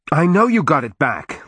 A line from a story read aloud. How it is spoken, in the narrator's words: Leisha shouted